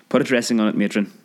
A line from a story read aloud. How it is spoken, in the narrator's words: the doctor said